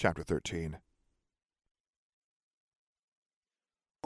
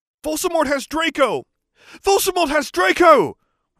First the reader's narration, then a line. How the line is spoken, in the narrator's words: we shouted at the same time